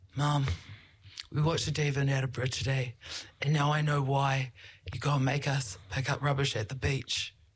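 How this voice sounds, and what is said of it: Put-on accent imitating her son. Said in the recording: “he doesn't really love this accent that I do for him”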